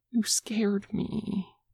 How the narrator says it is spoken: Aang admits in a whisper, his voice shaking

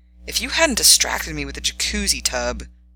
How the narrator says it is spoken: he sighed

